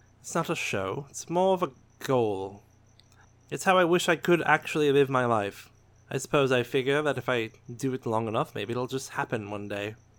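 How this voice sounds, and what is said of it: Upper-class posh accent. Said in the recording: “it was my accent ... I spoke like I was from Coruscant ... Coruscant's a pretty common accent ... this is an accent that denotes nobility or at least upper class in education”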